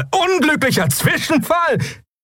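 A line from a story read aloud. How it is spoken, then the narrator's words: Bearded man laughing. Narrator (German): Der bärtige Mensch lachte auf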